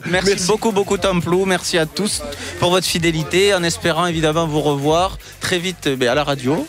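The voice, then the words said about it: Sing-song southwestern French accent. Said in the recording (French): “son petit accent ... du sud-ouest de la France, l'Occitanie, et un accent chantant”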